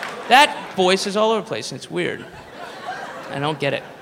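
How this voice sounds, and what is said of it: Usual voice. Nothing is said of it.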